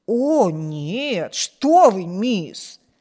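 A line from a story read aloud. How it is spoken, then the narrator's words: Surprised exclamation. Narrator (Russian): воскликнула Сьюзен, слегка удивленная этим вопросом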